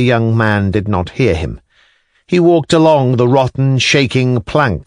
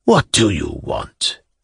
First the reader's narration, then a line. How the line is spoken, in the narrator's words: asked abruptly and almost in a whisper